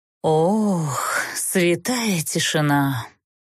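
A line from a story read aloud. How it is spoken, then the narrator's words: Sorrowful sigh. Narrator (Russian): горестно выдохнул Тмирна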